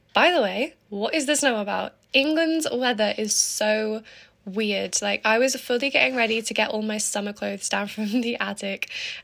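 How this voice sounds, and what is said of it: Raspy, sniffly voice. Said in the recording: “my voice will definitely sound different today... I've proper got my morning voice on... my voice is a lot more raspy and yeah, like that than usual... I've got a bit of a cold and a sniffle coming on”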